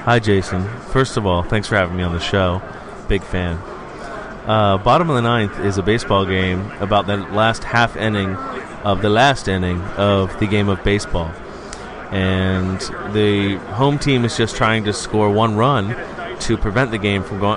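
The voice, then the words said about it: Mock NPR radio voice. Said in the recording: “NPR voice”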